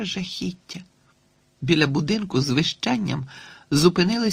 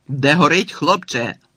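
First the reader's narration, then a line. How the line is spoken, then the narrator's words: Fire chief shouting. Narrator (Ukrainian): крикнув шеф пожежної служби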